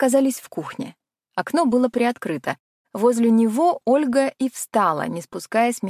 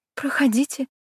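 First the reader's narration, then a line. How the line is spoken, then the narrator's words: Still frightened, female. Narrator (Russian): добавила все еще испуганно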